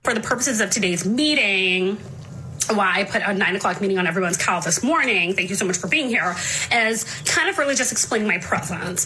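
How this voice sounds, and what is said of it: Put-on corporate accent. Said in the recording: “what they think is a corporate accent ... a little taste of the corporate accent that we're referring to”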